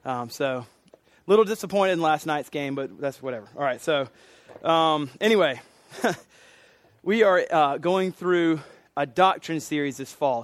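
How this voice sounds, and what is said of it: Hoarse, strained voice. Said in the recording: “I lost my voice Thursday at the Gamecock game... giving my voice”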